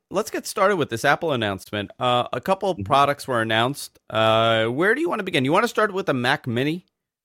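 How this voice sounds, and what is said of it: Nasal, congested voice. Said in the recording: “I'm very nasally today, and it's not my New York, yeah. Well, Long Island accent.”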